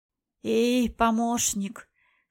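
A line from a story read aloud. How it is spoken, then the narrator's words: Hoarse voice. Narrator (Russian): хрипло произнесла ведающая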